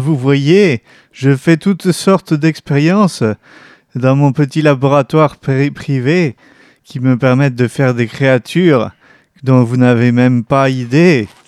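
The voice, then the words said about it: German accent drifting into southern accent. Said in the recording (French): “mon accent allemand qui se transforme en accent du Sud. C'est n'importe quoi.”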